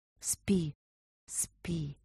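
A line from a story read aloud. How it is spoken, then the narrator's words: Whispered. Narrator (Russian): прошептала она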